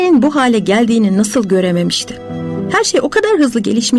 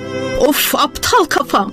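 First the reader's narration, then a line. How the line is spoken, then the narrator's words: Crying out. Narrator (Turkish): diye haykırdı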